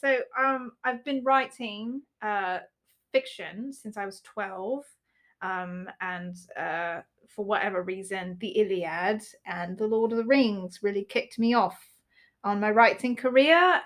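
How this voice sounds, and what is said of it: Put-on British accent. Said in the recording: “I want to talk in an American accent, but I can't do it ... I'm just going to talk in a British accent ... I can't get out of it”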